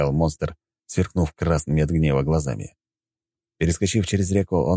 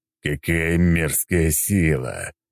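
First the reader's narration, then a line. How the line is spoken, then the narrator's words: Growled. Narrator (Russian): прорычал он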